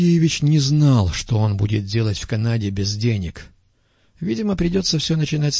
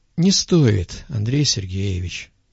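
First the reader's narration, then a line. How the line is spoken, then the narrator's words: Calm. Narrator (Russian): спокойно произнес пастух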